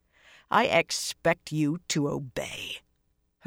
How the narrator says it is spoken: she said in a low, dangerous voice

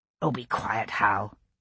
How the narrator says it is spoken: Gray muttered to his brother's shade

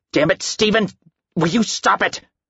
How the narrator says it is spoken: Al snapped

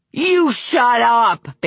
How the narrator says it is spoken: Bing screamed

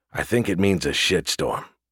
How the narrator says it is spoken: Gus put in quietly

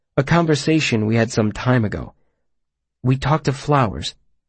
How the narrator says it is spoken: I said softly, not wanting to intrude upon the silence

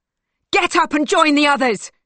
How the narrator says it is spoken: she screams at the girl

